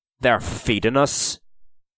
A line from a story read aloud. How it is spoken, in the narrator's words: growled Owen